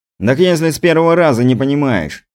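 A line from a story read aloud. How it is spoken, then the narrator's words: Muttering. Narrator (Russian): пробурчал Стас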